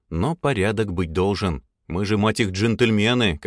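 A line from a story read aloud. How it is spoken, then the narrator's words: Plain. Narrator (Russian): как сказал Тёма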